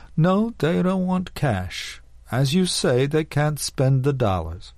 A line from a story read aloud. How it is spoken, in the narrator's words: spoke again slowly